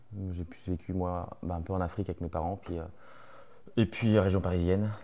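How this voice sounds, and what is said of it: Southern French accent. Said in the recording (French): “je dénote un petit accent qui n'est pas de la Beauce ... originaire du sud de la France”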